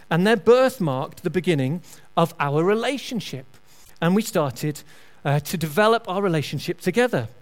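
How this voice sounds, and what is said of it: Northern English accent. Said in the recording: “my slightly strange northern accent”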